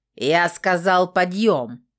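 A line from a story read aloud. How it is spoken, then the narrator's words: Growl. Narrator (Russian): рыкнул крылатый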